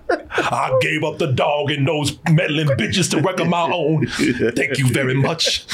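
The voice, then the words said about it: Put-on southern accent. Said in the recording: “I affect a southern accent. Yeah. Just for a little bit of flair.”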